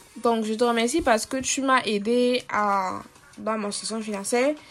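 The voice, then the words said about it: Cameroonian French accent. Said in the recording (French): “je vais changer d'accent ... moi je suis d'origine camerounaise et du coup je n'ai pas l'habitude de, parler comme des Français ... mon vrai accent c'est ça”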